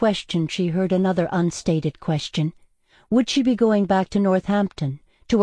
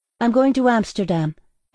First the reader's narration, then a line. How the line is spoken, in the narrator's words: Ella said